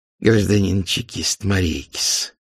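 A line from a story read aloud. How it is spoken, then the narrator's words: Hissing voice. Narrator (Russian): заговорил он шипучим голосом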